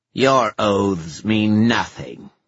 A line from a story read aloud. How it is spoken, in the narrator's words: snarled Ethna